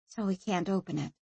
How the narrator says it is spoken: she said quietly

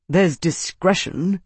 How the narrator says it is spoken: Senator Arnus muttered

